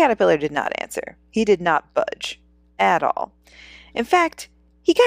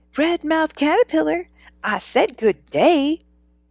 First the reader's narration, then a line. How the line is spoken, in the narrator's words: Bagina yelled again